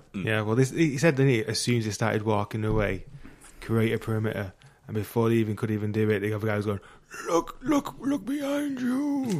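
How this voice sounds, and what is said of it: Good Jeffrey Wright impression. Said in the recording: “Really good Jeffrey Wright impression.”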